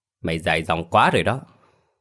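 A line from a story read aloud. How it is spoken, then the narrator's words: Angry. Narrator (Vietnamese): giận dữ nói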